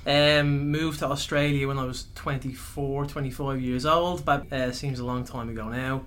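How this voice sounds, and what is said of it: Irish accent. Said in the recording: “born and raised in Ireland, as you might be able to tell by the accent”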